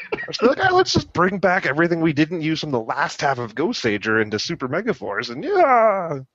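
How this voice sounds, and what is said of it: Imitates another person's voice. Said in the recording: “that your impression of him”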